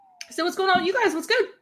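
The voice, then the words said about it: Very fast speech. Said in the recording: “You said that so fast. ... It's like I literally could not keep up.”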